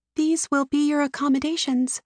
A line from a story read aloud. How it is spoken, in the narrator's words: Her voice is only a breath above a whisper when she says